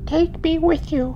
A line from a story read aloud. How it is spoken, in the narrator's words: the child begged